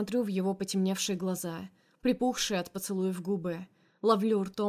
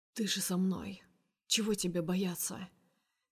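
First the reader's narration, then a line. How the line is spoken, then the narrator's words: Quiet reply. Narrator (Russian): Также негромко отвечает Герман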